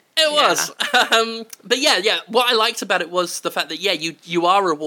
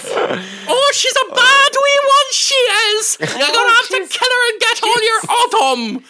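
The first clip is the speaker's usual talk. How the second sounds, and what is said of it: Poor stereotyped Irish accent. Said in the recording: “with the accent I just did, you couldn't call it appropriation. That was not Irish. ... It was crap.”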